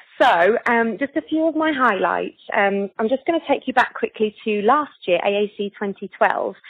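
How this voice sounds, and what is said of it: Excited, bubbly energetic voice. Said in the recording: “I'm bouncing off the walls, as you can probably hear from my voice”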